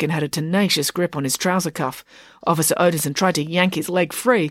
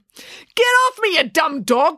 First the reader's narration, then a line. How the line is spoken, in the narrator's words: cried Officer Odinson